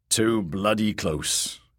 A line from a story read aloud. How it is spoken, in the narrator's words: grumbled old Tattersalt